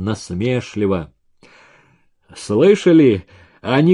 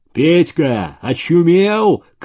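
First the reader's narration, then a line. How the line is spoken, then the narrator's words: Shout. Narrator (Russian): крикнул Егоров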